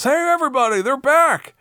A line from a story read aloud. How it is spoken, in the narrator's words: one guy in the crowd yells